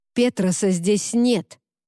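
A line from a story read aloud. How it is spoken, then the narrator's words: Snapping retort. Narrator (Russian): огрызнулся Уорд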